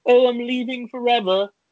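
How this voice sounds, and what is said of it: Put-on vaguely British accent. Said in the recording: “She's not British. I don't know why I did that. ... I was actually trying to place the accent. I was like, I don't know if that was like South African, Australian, British ... you forget how to enunciate”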